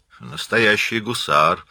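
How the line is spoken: Approving grumble. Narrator (Russian): одобрительно проворчал Блэкфиш

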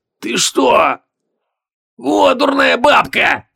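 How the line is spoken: Pained wheeze. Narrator (Russian): сквозь боль прохрипел Логмер

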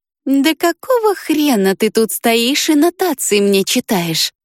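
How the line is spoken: Weary drawl. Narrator (Russian): Тоскливо протянула она

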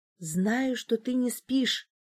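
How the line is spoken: Whisper. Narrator (Russian): прошептала в темноту

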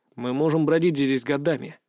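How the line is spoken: Mutter. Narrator (Russian): пробормотал я

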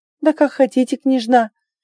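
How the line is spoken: Laughing. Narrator (Russian): рассмеялась, видя ее реакцию

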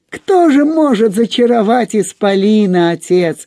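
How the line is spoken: Laughing. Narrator (Russian): засмеялся Космомысл

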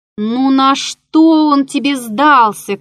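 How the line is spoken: Shouted after someone. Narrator (Russian): крикнул я ему вслед

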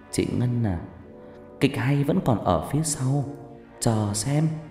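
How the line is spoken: Smirking whisper. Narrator (Vietnamese): cười nhếch mép một cái, rồi thủ thỉ

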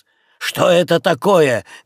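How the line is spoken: Tragic shouting through door. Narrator (Russian): кричал сквозь дверь хозяин трагического вида

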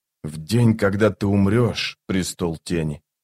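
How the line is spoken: Quiet. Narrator (Russian): тихо сказал он

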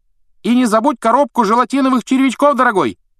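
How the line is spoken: Woman calling after someone. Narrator (Russian): крикнул кому-то вдогонку женский голос

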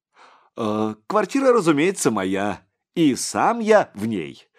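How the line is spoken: Laughing. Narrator (Russian): Сигизмунд рассмеялся

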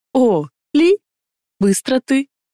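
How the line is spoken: Slightly flustered question. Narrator (Russian): немного растерянно спросил Ихтар

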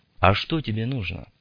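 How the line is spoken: Calm question. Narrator (Russian): спокойно поинтересовался незнакомец

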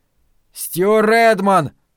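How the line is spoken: Shout into darkness. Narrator (Russian): крикнул в темноту

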